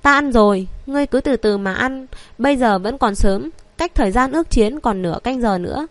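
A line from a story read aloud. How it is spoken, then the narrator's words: Smiling. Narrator (Vietnamese): Lam Tuyết Nhược mỉm cười nói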